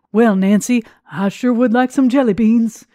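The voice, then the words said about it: Ronald Reagan impression. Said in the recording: “my Ronald Reagan impression”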